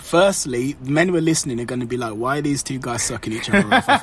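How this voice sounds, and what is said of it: British accent, suave and smooth. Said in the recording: “You've got the British accent, so you've got the suave, smooth”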